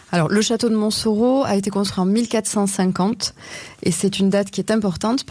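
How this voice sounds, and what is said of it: Southern French regional accent. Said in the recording (French): “Vu votre accent, vous n'étiez pas là-bas à l'époque ... Plus au sud. ... plus au sud de la Loire.”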